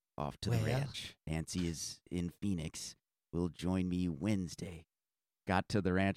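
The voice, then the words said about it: Imitates another person's voice. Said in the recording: “my Ronald Reagan impression”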